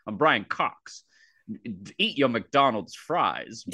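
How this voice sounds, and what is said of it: Old-school transatlantic accent impression. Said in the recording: “he has this like old school, almost like transatlantic accent ... he has this distinct like style of talking”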